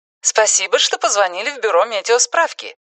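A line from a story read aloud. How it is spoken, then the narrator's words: Cheerful recorded voice. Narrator (Russian): радостно приветствовал его записанный на пленку голос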